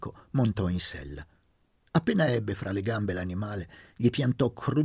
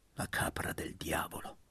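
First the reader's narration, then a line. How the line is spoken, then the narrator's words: Murmur to oneself. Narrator (Italian): mormorò tra sé Laura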